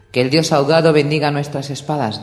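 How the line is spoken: Plain, priest. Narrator (Spanish): dijo el sacerdote

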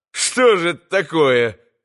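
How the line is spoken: Laughing. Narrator (Russian): засмеялся Иван

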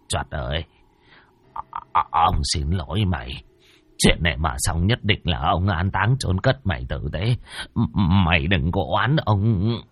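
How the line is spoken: Mumbling. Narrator (Vietnamese): Bá Khôi lầm bầm

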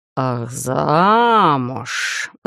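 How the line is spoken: Ominous drawl. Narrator (Russian): зловеще протянул викинг

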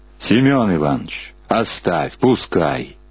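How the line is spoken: Booming cracking bass voice. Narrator (Russian): прогудел срывающийся бас

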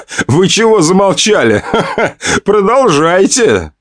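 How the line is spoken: Laughing. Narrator (Russian): смеялся Костя

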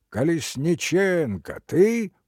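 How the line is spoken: Shouted. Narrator (Russian): крикнул

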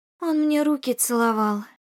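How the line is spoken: Sigh. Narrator (Russian): вздохнула она

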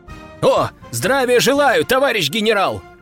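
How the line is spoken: Group shouting. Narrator (Russian): крикнули они

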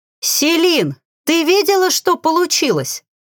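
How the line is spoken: Joyful shouting. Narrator (Russian): радостно крича

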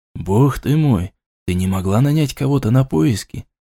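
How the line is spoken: Whispered reproach. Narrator (Russian): Шепотом попенял

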